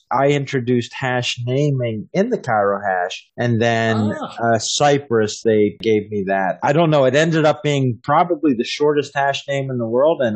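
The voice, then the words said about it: American accent. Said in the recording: “I'm detecting an American accent with you... born and raised in Pennsylvania”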